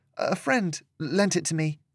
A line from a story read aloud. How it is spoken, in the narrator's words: replied in a quiet voice